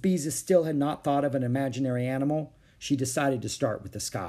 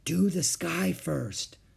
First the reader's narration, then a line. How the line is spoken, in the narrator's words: Beezus whispered to Ramona